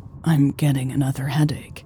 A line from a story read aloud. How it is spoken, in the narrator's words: she said quietly